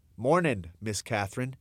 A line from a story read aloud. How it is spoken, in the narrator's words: he said